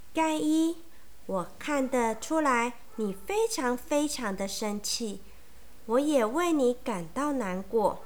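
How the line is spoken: Gentle voice. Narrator (Chinese): 莫瑞尔老师温柔的说

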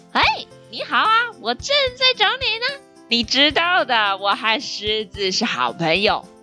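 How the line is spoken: Clears throat, smiling. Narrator (Chinese): 狐狸清了清嗓子，一脸笑意地对着鹿说

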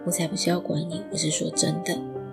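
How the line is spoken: Low, explaining. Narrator (Chinese): 他 低声的解释

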